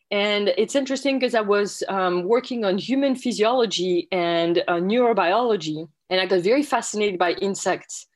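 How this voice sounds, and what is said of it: French accent. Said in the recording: “as you can probably tell from my accent, I'm originally from France”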